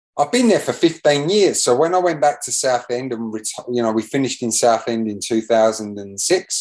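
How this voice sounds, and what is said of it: English accent with slight Australian twang. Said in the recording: “a little bit of an Australian twang in your accent these days”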